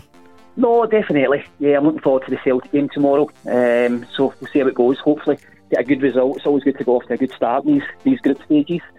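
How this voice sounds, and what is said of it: Fairly Scottish accent. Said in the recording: “got a fairly Scottish accent ... I've still got the Scottish accent.”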